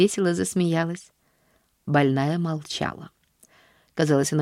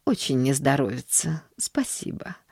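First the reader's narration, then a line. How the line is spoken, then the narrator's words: Apathetic mumble. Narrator (Russian): пробормотала миссис Сноу, впадая в свою обычную апатию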